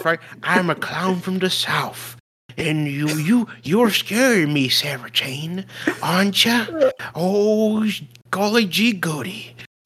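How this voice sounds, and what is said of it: Put-on southern clown voice. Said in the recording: “southern accent ... his clown voice ... Odd Bob from the south”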